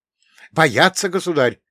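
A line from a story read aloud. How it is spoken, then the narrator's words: Quick blurted shout. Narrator (Russian): не задумываясь, выкрикнул гонец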